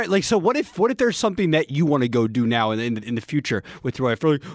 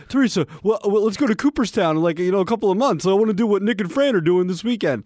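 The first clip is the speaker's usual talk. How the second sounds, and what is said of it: Imitates another person's voice. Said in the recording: “I don't like your impression of me. ... I do an impersonation. Universal impersonation of everybody.”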